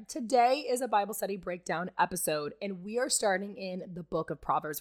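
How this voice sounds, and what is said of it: Raspy voice. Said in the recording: “So that's why I sound like this. ... the raspy voice, I'm kind of digging it. Like, I wouldn't be mad if my voice was, like, raspy like this.”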